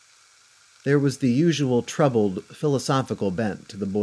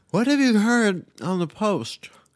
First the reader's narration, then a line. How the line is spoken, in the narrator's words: asked Pam, chewing and slurring her words